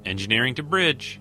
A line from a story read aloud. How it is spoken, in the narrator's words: a very familiar female voice called out